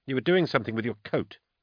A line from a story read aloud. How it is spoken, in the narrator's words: she snapped